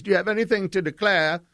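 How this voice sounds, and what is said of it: Puts on an official's accent. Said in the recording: “I don't know why they had that accent.”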